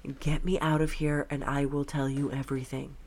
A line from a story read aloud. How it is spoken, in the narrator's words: In the midst of the commotion, whispered